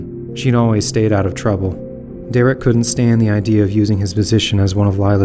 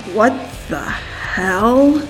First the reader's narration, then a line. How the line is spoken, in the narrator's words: She muttered